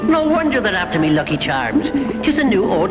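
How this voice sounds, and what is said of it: Strong Lucky the Leprechaun accent. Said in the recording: “when you go back a decade, the accent gets even stronger”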